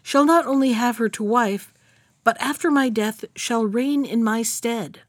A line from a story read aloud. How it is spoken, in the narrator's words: cried he